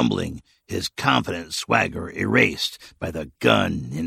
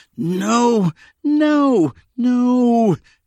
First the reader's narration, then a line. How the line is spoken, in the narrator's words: Tasker moaned